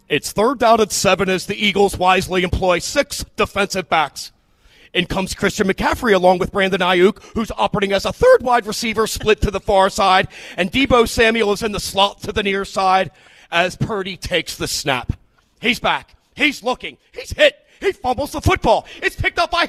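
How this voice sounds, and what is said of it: Imitates another person's voice. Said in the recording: “He has a great impersonation.”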